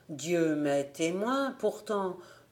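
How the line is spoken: Murmured. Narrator (French): murmura-t-il

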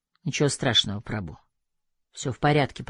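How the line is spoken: Mumbled. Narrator (Russian): пробормотал

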